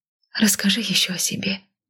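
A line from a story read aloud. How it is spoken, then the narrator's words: Quiet request. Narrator (Russian): тихо попросила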